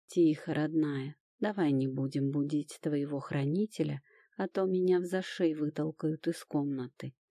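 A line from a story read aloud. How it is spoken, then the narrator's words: Soft whisper in ear. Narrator (Russian): тихо прошептал Тирон на ушко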